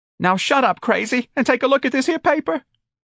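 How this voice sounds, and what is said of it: Cracking, upset voice. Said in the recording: “Her voice was cracking.”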